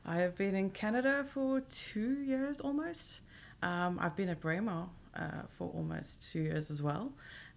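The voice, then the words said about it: South African accent. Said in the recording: “weird accent. I'm sure you can hear it. South African.”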